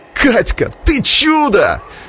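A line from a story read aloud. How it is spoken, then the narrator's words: Group yelling. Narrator (Russian): завопили ребята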